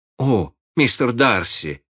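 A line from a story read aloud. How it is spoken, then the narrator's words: Exclaimed. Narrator (Russian): воскликнула Мэри Джейн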